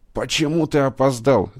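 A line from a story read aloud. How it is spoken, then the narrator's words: Shouted. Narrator (Russian): закричал он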